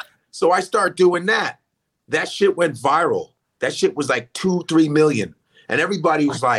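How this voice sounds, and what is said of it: Usual voice. Nothing is said of it.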